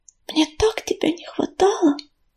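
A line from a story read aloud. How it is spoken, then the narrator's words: Whisper. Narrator (Russian): прошептала Листвичка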